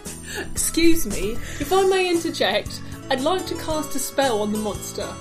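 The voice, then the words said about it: Put-on British accent. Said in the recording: “I've got to practice my British accent”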